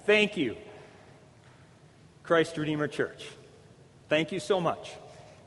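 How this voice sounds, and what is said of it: Choked-up, emotional voice. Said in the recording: “I'm getting choked up. ... I might need a tissue”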